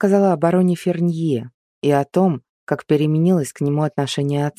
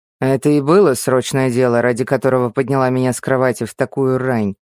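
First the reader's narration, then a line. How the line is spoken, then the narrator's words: Displeased mutter. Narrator (Russian): недовольно пробурчал Анри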